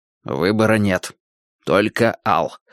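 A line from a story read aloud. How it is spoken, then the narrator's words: Muttered. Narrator (Russian): пробормотал он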